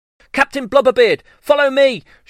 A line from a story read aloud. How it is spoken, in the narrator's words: shouted Long Jane Silver